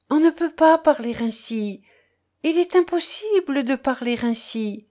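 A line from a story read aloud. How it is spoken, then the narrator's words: Pleading but clear voice. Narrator (French): d'une voix suppliante, mais limpide encore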